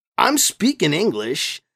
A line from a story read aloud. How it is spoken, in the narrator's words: Stefan said